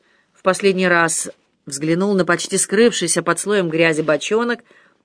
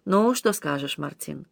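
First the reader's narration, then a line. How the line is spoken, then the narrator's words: Impressed, artless mumble. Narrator (Russian): Простодушный Тесен, которого впечатлили эти слова капеллана, пробормотал, обращаясь к Аманьяну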